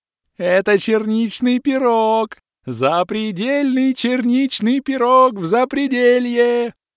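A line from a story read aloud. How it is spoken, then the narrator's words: Joyful laughing yell. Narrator (Russian): Счастливо хохоча завопил лысый эльф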